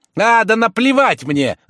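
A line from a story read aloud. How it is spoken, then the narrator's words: Furious trembling shout. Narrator (Russian): закричал тот, весь трясясь от злости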